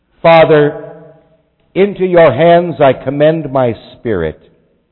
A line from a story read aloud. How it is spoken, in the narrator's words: Jesus cried out in a loud voice